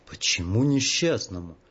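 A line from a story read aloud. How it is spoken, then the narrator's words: Heavy sigh. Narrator (Russian): Живчик тяжело вздохнул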